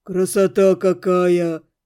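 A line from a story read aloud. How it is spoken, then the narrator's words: Breathless young man's exclamation. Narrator (Russian): выдохнул кто-то из парней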